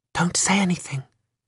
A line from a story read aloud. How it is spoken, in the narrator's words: whispered Bea